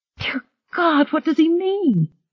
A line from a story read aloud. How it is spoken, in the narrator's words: Marie cried